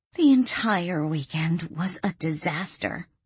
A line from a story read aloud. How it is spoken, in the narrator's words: Arlene groaned